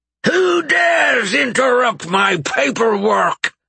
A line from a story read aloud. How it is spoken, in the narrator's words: the goblin captain roared, as he got to his feet